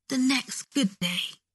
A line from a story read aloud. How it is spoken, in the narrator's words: Malfoy whispered when he finally stopped crying